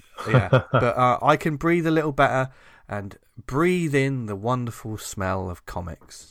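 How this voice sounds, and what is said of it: Gravelly, slightly ill-sounding voice. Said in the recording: “You sound better this week, by the way ... You can probably still hear it in my voice, but I don't sound so awful ... give me a gravelly voice”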